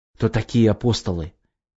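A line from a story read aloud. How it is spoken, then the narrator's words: Quiet question. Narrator (Russian): тихо спросил Глеб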